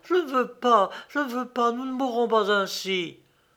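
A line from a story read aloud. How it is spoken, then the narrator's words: Exclaiming. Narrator (French): À la vue de Targ, Arva s'écria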